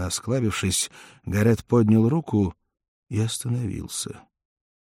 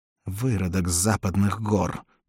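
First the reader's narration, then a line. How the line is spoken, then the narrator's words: Hiss. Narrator (Russian): прошипел он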